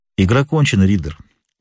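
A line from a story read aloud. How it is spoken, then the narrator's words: Calm. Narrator (Russian): проговорил спокойно Холмс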